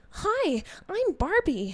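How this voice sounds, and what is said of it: Barbie character voice. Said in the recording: “my best Barbie voice”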